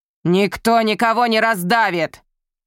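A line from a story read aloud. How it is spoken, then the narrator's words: Growling. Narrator (Russian): прорычал Генрик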